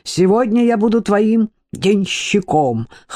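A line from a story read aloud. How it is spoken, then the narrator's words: Loud laughter. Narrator (Russian): хохотал светлейший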